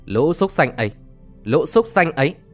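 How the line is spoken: Hissing through gritted teeth. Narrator (Vietnamese): Lộc Vọng Phát nghiến răng trèo trèo, tiếng nói rít qua kẽ rằng

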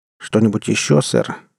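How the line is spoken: Gloomy, apprehensive question. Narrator (Russian): мрачно спросил я, охваченный плохими предчувствиями

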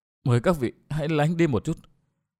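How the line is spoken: Soft female voice. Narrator (Vietnamese): Tặc nữ khẽ nói

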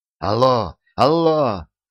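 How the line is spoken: Fierce shouting into phone. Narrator (Russian): Сьюзен ожесточенно кричала в трубку

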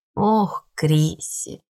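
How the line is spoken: Sigh. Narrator (Russian): Она вздохнула

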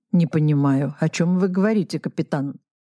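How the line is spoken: Plain. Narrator (Russian): ответил Арестит Карпович

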